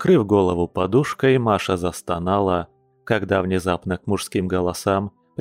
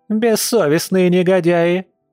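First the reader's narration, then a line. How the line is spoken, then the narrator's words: Yelling. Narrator (Russian): орала Антонина Николаевна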